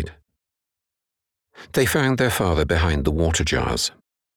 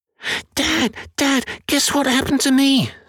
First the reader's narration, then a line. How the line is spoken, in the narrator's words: squeaked Billy